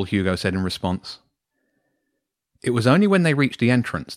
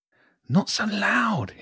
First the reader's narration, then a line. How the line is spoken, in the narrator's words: hissed James